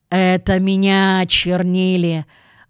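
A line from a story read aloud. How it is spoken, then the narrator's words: Grumbled. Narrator (Russian): буркнул измазанный золой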